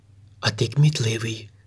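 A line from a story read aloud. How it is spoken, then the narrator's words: Whispered. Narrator (Ukrainian): шепнула вона хлопчикові Мізинчику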